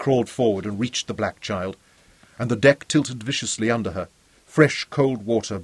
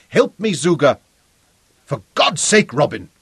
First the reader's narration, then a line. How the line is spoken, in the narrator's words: she shouted